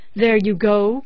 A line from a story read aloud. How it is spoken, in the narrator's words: cried